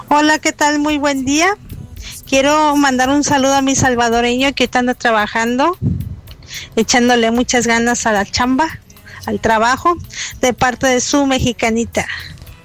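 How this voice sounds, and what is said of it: Mexican Spanish accent. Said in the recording (Spanish): “Miren qué acento más bonito. Uno sabe que es de México.”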